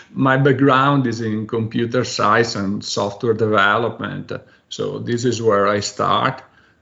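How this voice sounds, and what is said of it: Italian accent. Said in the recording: “I'm Italian, and I'm sure my accent is already giving that away”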